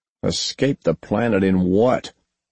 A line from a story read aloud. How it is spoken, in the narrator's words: Posey snorted